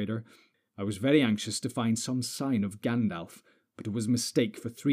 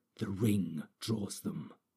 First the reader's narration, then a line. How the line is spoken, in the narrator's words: he added, and his voice sank to a whisper